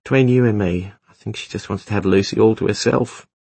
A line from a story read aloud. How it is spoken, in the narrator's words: she sighed